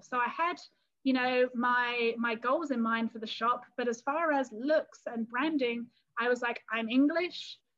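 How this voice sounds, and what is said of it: English accent. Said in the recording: “they love my English accent.”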